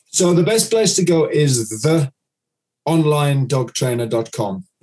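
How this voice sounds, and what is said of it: Speaks with a noticeable accent. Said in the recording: “my accent might come across a bit funny”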